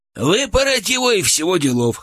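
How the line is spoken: Short laugh. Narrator (Russian): хохотнул Гурьян

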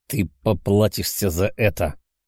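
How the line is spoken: Young man hissing. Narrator (Russian): прошипел парень

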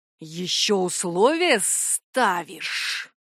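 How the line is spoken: Demon hissing. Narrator (Russian): демон прошипел

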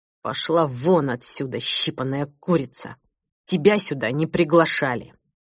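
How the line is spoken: Hissed through clenched teeth. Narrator (Russian): Сквозь сжатые в бессилии зубы он процедил

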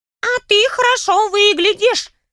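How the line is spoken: Squeaky voice from below. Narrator (Russian): пропищал голос откуда-то снизу

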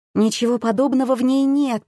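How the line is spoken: Timid babbling. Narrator (Russian): пролепетала я

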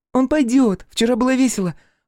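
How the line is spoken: Joyful shout. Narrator (Russian): Радостно крикнула Эбби

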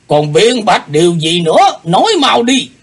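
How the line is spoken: Roaring question. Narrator (Vietnamese): Lão nhân gầm hỏi

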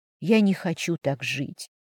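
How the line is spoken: Whisper under breath. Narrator (Russian): шептала я себе под нос

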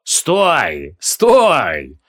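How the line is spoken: Cheerful booming. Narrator (Russian): весело грохотал Ифрит

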